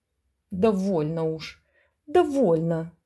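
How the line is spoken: Groaning. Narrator (Russian): стонал он

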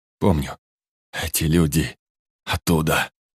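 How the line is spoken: Hoarse rasp. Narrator (Russian): прохрипел Ашот

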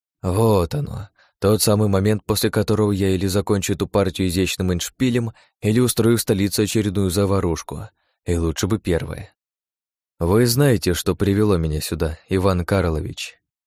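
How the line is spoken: Whisper. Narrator (Russian): тихо прошептала

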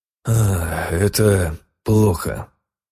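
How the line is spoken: Sigh. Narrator (Russian): вздохнул я

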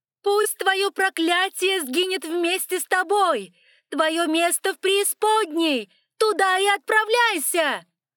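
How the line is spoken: Screaming in agony. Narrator (Russian): Альберт завопил во весь голос, как будто испытывал невыносимую боль

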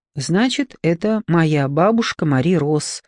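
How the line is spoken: Plain. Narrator (Russian): сказала она

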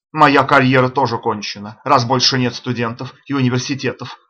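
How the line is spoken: Exclaiming. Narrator (Russian): воскликнул Саммерли

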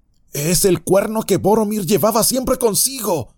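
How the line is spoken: Exclaiming. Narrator (Spanish): exclamó Pippin

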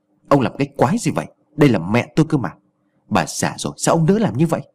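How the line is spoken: Angry. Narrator (Vietnamese): Anh Phú giọng tức giận

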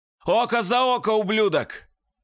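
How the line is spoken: Shouted with full force. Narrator (Russian): крикнул я, что есть силы

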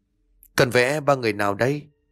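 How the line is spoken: Trembling question. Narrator (Vietnamese): Hương run rẩy lên tiếng hỏi

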